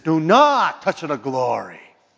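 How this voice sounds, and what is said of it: Put-on Irish or Italian accent. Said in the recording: “That was kind of an Irish accent there too, wasn't it? But anyway, Italian.”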